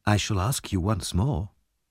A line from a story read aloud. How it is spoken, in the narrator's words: said Harry softly